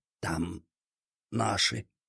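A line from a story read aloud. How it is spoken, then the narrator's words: Strained, through teeth. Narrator (Russian): выдавил он сквозь зубы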